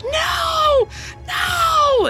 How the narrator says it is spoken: Piper screams

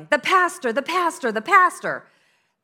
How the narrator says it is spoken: the audience just kept shouting

